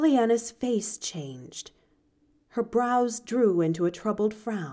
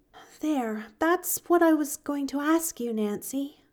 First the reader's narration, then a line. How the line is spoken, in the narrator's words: she sighed